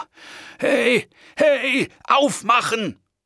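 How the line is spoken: Shouted out. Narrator (German): schrie ich los

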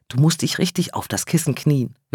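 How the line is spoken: Whispering. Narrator (German): wisperte

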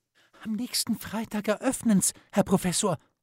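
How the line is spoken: Excited telling. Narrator (German): erzählt die Lissi aufgeregt

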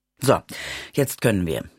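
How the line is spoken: Plain. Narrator (German): sagte

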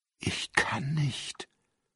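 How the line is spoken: Whispered. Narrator (German): flüsterte er

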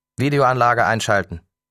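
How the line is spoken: Calling out. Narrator (German): rief er

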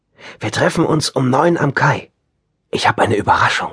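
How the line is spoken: Whispering. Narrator (German): flüsterte sie

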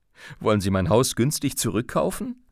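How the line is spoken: Said laughing. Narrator (German): sagte lachend

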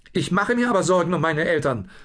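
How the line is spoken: Blustering. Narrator (German): polterte Lucius gerade

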